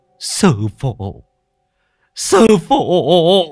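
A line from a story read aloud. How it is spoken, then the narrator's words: Tearful whimpering. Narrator (Vietnamese): Ông lập tức quỳ xuống mếu máo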